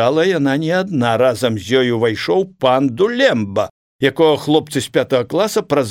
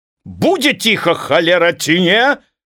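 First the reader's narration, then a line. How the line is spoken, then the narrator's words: Shouting. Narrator (Belarusian): крычаў ён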